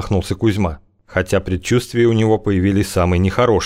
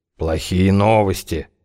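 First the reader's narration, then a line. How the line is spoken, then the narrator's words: Sigh. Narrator (Russian): вздохнул Венедим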